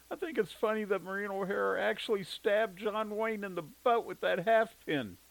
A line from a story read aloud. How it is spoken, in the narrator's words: Jimmy giggled